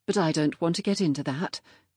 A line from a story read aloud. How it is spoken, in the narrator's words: she added hastily